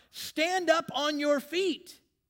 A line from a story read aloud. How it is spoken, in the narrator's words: Paul called out